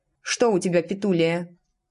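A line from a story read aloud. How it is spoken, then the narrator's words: Plain. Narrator (Russian): спросила анаграмма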